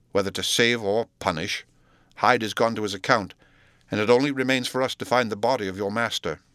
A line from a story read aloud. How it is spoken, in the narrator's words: he said sternly